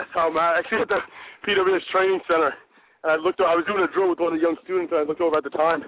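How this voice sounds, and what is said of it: Out of breath. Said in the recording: “little out of breath.”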